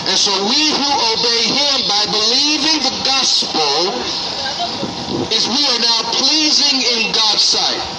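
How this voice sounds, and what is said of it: Speaks with a noticeable accent. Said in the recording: “I see you hear my accent, huh?”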